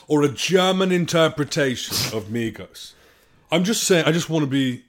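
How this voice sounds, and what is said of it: Pompous British accent. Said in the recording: “That's British. That's pompous. It's called pompous.”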